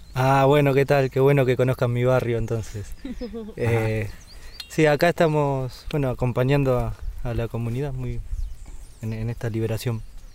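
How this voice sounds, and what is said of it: Argentine Spanish accent. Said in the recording (Spanish): “Desde el sur del continente, cerca de la Patagonia ... Por su acento ya sabemos de dónde es.”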